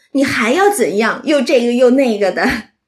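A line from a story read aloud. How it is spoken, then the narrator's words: Laughing question. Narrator (Chinese): 还笑着都问黛玉说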